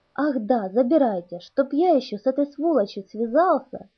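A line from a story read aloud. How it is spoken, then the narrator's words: Exasperated exclamation. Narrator (Russian): в сердцах воскликнул капитан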